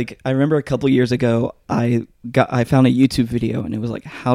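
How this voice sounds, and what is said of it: Usual voice. Nothing is said of it.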